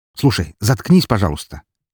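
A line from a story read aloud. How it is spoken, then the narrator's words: Angry. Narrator (Russian): Зло произнес Александр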